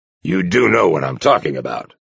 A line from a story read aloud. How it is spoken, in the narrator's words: Arcos growled impatiently